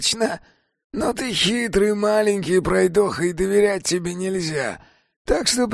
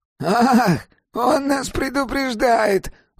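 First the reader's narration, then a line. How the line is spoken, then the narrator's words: Exclaiming. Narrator (Russian): воскликнул первый голос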